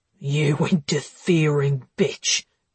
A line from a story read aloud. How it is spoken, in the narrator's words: growled Sean